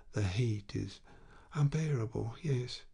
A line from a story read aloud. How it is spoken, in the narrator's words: with a sigh, Léon said